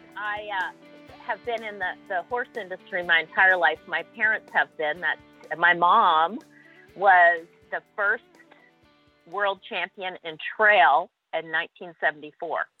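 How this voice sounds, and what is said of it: Slight Canadian accent. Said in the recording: “I thought I detected a little bit of accent in that. ... Yeah, a little twang. ... I've got a Canadian twang.”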